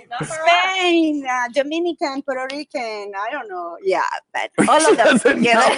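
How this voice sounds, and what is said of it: Noticeable foreign accent. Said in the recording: “She's got a fun accent. ... I know her accent. Her accent.”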